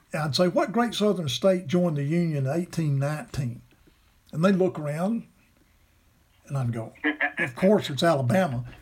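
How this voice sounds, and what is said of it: Southern US Alabama accent. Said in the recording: “everybody knows that's where I'm from because of my accent”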